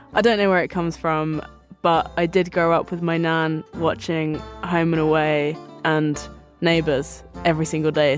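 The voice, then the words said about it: Southern English accent, Australian twang. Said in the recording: “My accent comes from Hampshire, which is the south of England, aka south of London... even English people think I have an Australian twang.”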